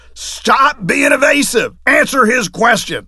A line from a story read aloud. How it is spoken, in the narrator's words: this crazy old judge starts berating him and yelling at him